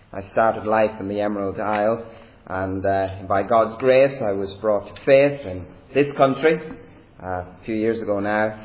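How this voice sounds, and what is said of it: Irish accent. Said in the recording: “I have an Irish accent”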